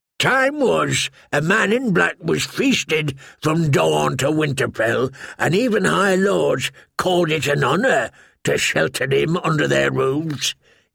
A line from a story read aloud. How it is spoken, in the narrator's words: he said bitterly